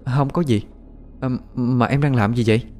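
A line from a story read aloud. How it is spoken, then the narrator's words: Hesitant, then calm. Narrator (Vietnamese): ngập ngừng vài giây, lấy lại bình tĩnh rồi mới nói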